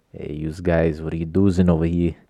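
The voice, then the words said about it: Vaguely Italian New England gangster voice. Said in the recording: “a weird voice ... a voice that's just like vaguely Italian, new Eastern, New England, gangster kind of”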